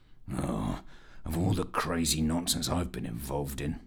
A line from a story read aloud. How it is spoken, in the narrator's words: growled Fitch to himself